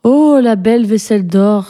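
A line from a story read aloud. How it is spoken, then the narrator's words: Exclamation. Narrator (French): s'écria-t-elle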